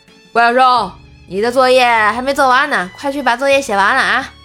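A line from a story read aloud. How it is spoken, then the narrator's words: Loud. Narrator (Chinese): 大声的对他说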